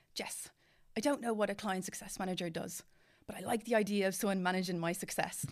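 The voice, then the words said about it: Bad impression of a client. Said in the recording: “they probably don't sound like that at all. It's a very bad impression.”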